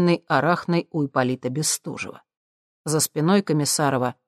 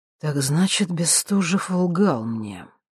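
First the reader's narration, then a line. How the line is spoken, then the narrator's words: Quiet, calm. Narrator (Russian): тихим спокойным голосом проговорил Николай Комиссаров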